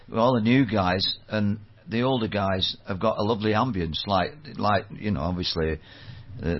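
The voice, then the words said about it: Manchester English accent. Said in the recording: “I'm trying to work out the accent. ... I'm from bloody Manchester.”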